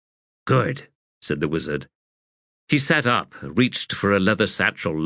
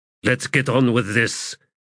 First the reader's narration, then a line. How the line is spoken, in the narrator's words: Callum growled